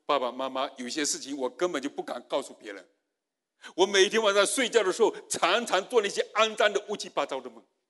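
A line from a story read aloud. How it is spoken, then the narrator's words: Daughter crying. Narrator (Chinese): 女儿在那里哭，女儿说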